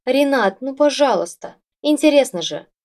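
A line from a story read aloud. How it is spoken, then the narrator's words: Pleading moan. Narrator (Russian): умоляя, простонал Валера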